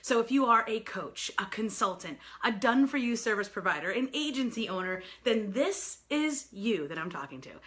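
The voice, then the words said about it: New York accent. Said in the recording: “I am a native New Yorker, so pardon my crazy accent.”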